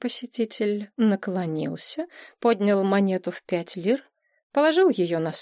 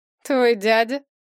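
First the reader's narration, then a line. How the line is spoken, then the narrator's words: Mocking question. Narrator (Russian): насмешливо переспросил портье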